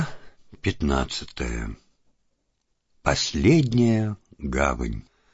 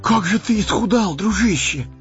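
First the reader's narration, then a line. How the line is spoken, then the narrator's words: Exclaiming. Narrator (Russian): воскликнул Сэмми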